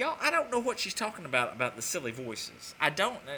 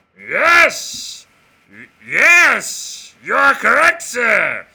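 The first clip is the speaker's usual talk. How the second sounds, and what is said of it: Ed McMahon impression. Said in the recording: “the silly voices that you do ... unless it was the Ed McMahon”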